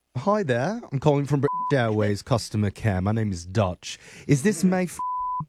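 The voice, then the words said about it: Deliberately bad fake British accent. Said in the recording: “my absolute worst British accent”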